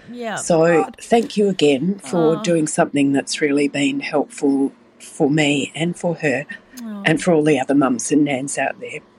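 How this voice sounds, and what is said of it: Teary, emotional voice. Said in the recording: “Sorry, I'm getting teary”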